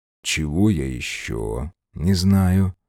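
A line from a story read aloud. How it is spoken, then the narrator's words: Asked fairly calmly. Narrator (Russian): довольно спокойным голосом поинтересовался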